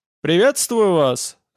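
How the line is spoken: Ringing, trembling voice. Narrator (Russian): сказал он звонким голосом, который дрожал, как туго натянутая струна

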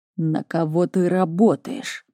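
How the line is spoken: Muttered through teeth. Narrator (Russian): процедил

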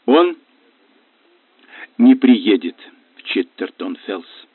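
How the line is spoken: Hoarse mutter. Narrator (Russian): хрипло пробормотала Наяда

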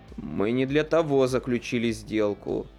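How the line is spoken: Near-moan of desire. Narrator (Russian): Дебора почти застонала от желания

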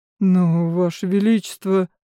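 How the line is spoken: Mumbling. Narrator (Russian): промямлил капитан

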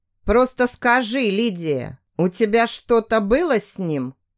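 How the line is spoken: Muffled question. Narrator (Russian): Глухо спрашивает Карлос

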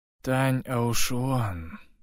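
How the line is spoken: Numb-lipped mumble. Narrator (Russian): промямлил он, с трудом двигая одеревеневшими губами и занемевшим языком

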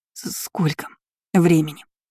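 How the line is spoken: Tearful question. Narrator (Russian): сквозь слезы спросила она

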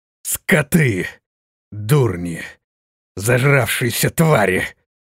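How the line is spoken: Hateful furious growl. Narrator (Russian): прорычал он, выплеснув всю свою вспыхнувшую ненависть и злобу к пропавшим рассветным

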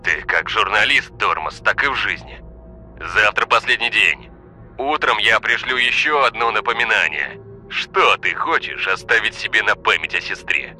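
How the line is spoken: Mocking growl. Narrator (Russian): с насмешкой прорычал Олег

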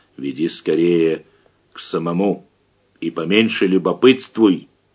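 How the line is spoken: Quiet whisper. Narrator (Russian): таким же тихим шепотом ответил приезжий

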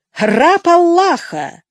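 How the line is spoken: Exclamation. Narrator (Russian): воскликнул Улугбек

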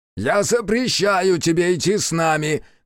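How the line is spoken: Shouting. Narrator (Russian): кричала Яшики

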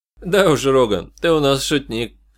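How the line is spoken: Chuckling. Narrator (Russian): хохотнул Мрид

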